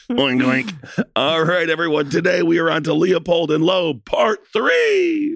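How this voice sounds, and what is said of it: Hoarse, mostly lost voice. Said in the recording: “My voice is gone from this weekend in Nashville, so I apologize if your ears aren't getting your usual succulent tones. ... your voice is gone”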